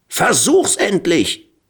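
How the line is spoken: Screaming. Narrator (German): Pulara schrie

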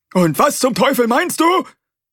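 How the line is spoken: Roaring. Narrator (German): brüllte er

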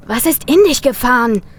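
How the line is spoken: Called out. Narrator (German): rief Tim

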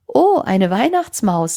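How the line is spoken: Grandmother laughing. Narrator (German): lachte Oma

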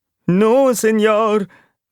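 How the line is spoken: Whimpering rat. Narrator (German): wimmerte die Zirkusratte

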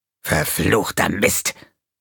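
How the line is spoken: Snarled. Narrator (German): fauchte er

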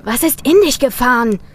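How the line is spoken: Called out. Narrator (German): rief Tim

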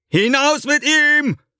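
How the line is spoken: Calling out to guards. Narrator (German): ruft er den Aufsehern zu

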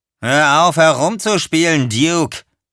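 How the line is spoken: Calling out. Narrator (German): rief Earl

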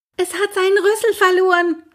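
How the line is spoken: Calling out. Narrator (German): rief er

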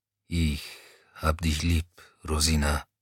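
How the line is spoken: Quiet mumble under engine noise. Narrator (German): brummte er leise genug, dass Rosina es im Dröhnen der Maschine nicht hören konnte

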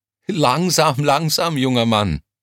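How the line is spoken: Laughing. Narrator (German): lachte sie

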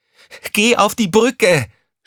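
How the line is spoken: Shouting at someone. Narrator (German): schrie Crescentia Rausch sie an

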